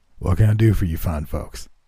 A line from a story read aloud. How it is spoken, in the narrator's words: the man asked in a scratchy but pleasant voice